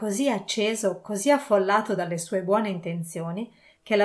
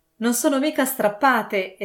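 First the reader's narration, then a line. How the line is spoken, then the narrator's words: Exclaimed. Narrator (Italian): esclamò Scrooge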